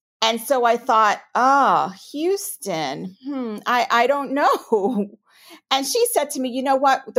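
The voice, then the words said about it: New York accent. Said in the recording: “I'm a native New Yorker, if you can't tell from my accent.”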